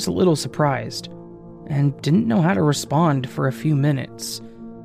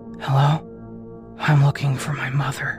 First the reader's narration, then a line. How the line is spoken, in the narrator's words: a voice in a loud whisper quickly said